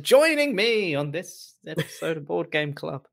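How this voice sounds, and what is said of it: Deliberately bad impression of a host. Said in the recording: “I did a really bad impression of Adam.”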